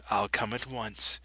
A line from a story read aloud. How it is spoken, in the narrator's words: Jesus said